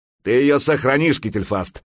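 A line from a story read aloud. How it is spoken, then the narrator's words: Shouted. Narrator (Russian): крикнул Храгнир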